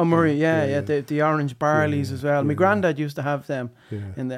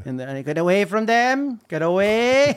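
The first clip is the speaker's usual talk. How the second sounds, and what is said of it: Imperfect put-on Cork Irish accent. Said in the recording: “That's my Cork accent. I should have a better Cork accent”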